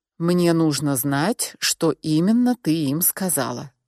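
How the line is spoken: Calm but insistent, man. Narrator (Russian): спокойно, но настойчиво повторил мужчина

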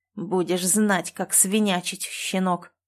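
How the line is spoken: Hissed through teeth. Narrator (Russian): процедил страж

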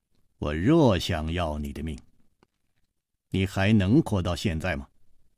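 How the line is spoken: Cold. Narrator (Chinese): 黑衣人冷冷地说

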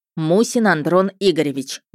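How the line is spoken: Loud announcement. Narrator (Russian): громко объявил лейтенант Дворников

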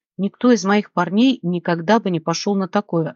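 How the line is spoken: Plain. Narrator (Russian): ответил ублюдок

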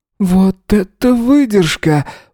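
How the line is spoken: Breathed out. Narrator (Russian): выдохнул Крис

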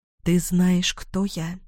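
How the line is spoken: Whisper. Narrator (Russian): прошептала

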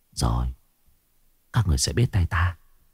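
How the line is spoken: Muttering. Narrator (Vietnamese): Cô lẩm bẩm

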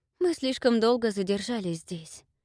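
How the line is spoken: Sighing. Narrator (Russian): вздохнула Рыска

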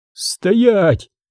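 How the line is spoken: Male shout. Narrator (Russian): крикнул он

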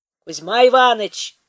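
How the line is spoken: Men shouting from shore. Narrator (Russian): кричали с берега мужики

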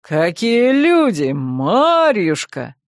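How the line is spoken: Joyful reply. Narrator (Russian): радостно отозвался

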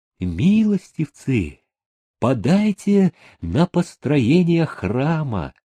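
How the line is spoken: Singsong plea. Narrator (Russian): Монашка певучим голосом попросила

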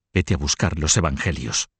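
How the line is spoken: Whispered. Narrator (Spanish): susurró a su marido

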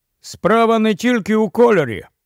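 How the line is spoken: Sudden loud speech. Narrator (Ukrainian): раптом голосно промовив Ріп

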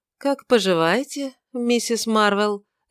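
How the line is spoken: Lazy drawl through teeth. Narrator (Russian): лениво процедил он

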